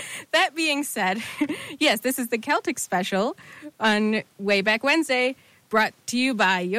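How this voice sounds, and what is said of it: Usual voice. Nothing is said of it.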